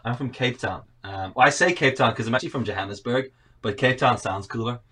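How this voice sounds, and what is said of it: Mixed South African-Northern Irish accent. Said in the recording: “I've got this really messed up like accent that people always say, are you Canadian or Australian first? ... neither. South African.”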